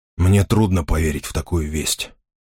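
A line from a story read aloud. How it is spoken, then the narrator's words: Hoarse voice. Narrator (Russian): хрипло произнес принц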